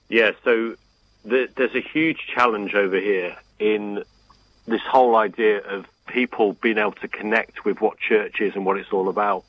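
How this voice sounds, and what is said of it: English accent. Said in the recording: “the way from not-so-jolly old England is ... with his wonderful accent ... your accent brings a little more sense of authority”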